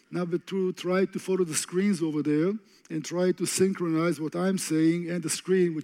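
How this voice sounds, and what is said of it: Speaker's own noticeable accent. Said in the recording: “get used to my accent”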